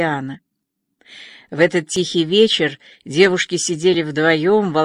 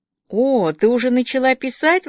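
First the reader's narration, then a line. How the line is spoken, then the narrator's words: Eager exclamation. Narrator (Russian): воскликнула Диана, сразу же загоревшись живым интересом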